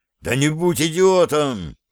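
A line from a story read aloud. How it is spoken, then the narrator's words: Roar. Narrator (Russian): взревел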